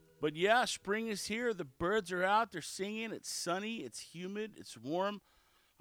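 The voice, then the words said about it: Slightly raspy voice. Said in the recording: “apologize for my voice. It's a little bit raspy.”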